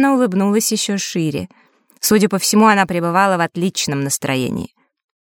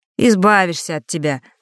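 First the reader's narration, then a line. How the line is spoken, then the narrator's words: Mocking snort. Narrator (Russian): насмешливо фыркнул Фэш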